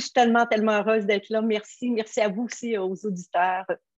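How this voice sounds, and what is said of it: Québécois French accent. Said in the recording (French): “une magnifique québécoise. Vous allez voir, son accent va vous enchanter.”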